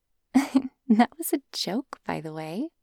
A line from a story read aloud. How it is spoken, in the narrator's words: said, giggling again